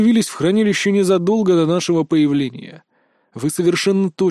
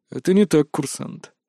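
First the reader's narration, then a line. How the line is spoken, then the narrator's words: Calm objection. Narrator (Russian): также спокойно возразил он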